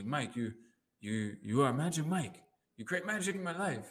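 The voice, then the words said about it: Bad put-on Asian accent. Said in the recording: “doing a bad Asian voice, but really nicely”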